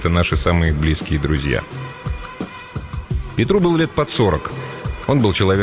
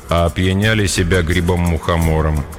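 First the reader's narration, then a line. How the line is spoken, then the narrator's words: Even voice. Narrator (Russian): ровным голосом проговорил Петр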